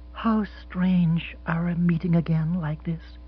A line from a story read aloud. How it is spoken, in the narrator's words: she said softly